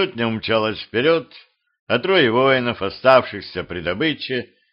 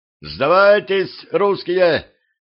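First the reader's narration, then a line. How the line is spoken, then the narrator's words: Shout. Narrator (Russian): на всякий случай крикнул Тукай Мурза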